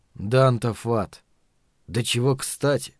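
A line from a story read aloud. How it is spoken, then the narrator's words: Sigh. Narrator (Russian): вздохнул Каттерсон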